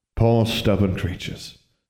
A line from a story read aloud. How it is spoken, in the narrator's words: sighed Alexandra's father